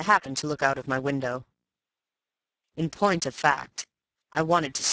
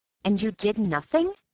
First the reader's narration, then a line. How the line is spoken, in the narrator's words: I exclaimed